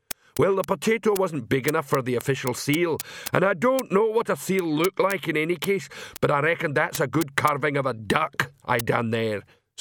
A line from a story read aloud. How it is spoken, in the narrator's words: said the troll cheerfully